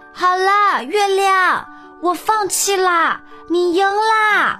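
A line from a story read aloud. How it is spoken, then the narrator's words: Loud bear cub. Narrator (Chinese): 大声说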